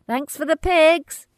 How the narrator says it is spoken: Grit shouts

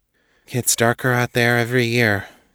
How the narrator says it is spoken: Kate sighed

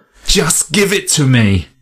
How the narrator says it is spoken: Rufinus shrieked

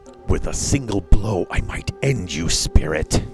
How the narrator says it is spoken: hissed the first prince

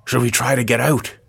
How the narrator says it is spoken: He whispered

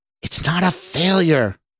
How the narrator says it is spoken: the man in the lab coat exclaimed angrily

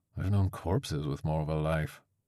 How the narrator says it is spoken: Crovis muttered

